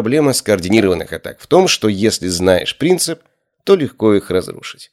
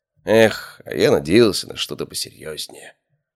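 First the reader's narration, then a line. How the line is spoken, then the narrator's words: Sighing. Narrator (Russian): вздохнул я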